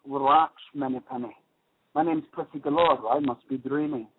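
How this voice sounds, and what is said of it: Old James Bond impression. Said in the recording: “James Bond, the old James Bond one.”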